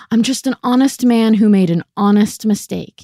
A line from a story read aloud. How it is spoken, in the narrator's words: he said